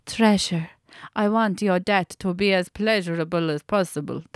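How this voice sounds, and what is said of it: Bad put-on German accent. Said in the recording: “That's a fucking dreadful German accent”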